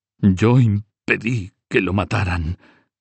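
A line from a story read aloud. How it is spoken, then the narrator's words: Moaned. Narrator (Spanish): gimió Nogaré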